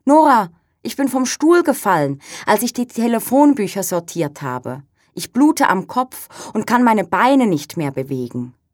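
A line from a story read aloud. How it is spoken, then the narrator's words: Calling out. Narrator (German): Brigitte ruft in meine Richtung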